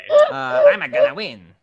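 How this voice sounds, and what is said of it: Waluigi cartoon character voice. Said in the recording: “your Waluigi impression ... That's pretty good.”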